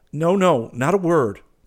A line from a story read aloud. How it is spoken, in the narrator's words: cried Hastings, smiling